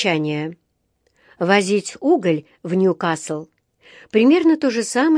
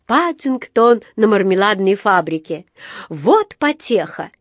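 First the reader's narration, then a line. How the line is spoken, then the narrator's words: Giggle. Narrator (Russian): хихикнул Джонатан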